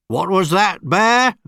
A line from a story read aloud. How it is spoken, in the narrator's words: barked Mr